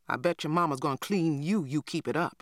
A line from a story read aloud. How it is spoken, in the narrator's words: I grumbled